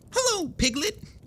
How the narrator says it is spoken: he squeaked

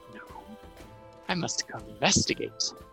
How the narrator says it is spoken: a small whispery voice go

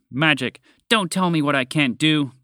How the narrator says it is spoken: the horse snapped

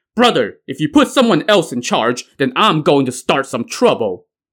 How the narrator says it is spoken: Li Kui, the Black Whirlwind, shouted to Song Jiang

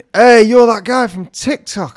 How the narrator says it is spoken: these two teenage boys, really weird, shouted

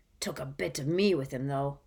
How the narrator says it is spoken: whispered Moody

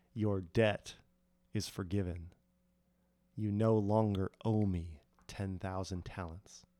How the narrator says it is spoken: the king quietly said

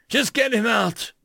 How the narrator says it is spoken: the Terran shouted again

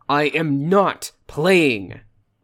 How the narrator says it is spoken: Travis leaned down and shouted in her face

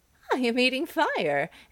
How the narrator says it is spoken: answered the man, laughing

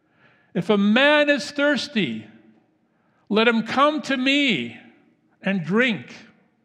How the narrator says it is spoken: a voice in the crowd called out loud and clear

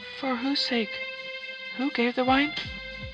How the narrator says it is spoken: said she in a faltering voice

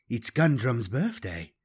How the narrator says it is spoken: In her nearly normal tone, she added

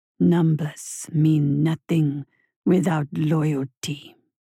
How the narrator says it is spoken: sneered the voice slowly

